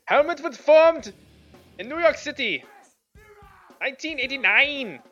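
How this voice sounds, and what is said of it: Put-on German accent. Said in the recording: “Can you do it with a German accent? ... Oh, that was good, though. ... she was reacting to my German”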